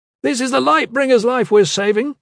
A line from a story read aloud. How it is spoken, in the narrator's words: Cruxa shouted